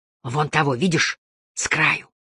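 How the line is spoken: Whisper. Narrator (Russian): зашептал Кассис

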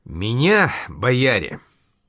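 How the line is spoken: Sudden stern commanding tone. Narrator (Russian): вдруг совсем строго, как командовал, произнес тогда Иван Юрьевич Патрикеев

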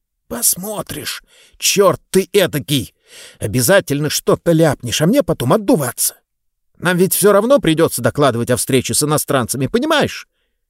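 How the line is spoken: Quiet, almost whispering. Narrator (Russian): Говорили мы, само собой, тихо, практически шептали

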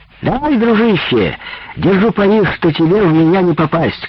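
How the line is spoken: Woman shouting. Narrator (Russian): крикнула одна из женщин

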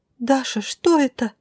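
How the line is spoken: Frightened sob. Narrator (Russian): Испуганно всхлипнула Милена

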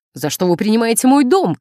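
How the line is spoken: Shouting. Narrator (Russian): кричала она

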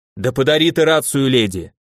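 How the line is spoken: Werewolf's bark. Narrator (Russian): рявкнул оборотень

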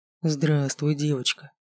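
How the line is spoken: Soft male voice. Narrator (Russian): мягко произнес он

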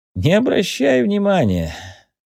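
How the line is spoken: Laughing. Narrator (Russian): засмеялся Антуан

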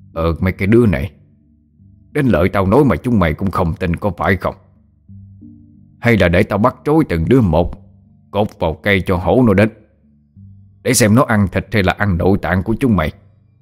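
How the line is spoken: Angry shout. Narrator (Vietnamese): Mo Lạng tức thì trợn mắt lên, tức giận quát

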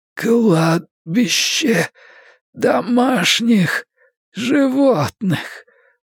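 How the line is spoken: Hoarse, hysterical. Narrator (Russian): прохрипел молодой человек и растянул губы в ухмылке, поразительно схожей с истерической, невеселой ухмылкой

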